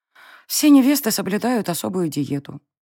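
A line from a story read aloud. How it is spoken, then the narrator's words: Reluctant, unhappy admission. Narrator (Russian): не слишком радостно призналась девушка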